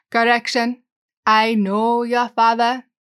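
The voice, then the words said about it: Attempted cartoon character accent. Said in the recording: “I'm horrible at accents”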